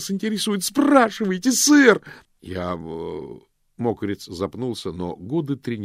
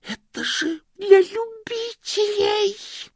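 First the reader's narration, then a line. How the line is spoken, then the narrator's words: Hissing. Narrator (Russian): зашипел Стэнли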